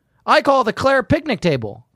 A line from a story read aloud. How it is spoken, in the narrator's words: Claire shouted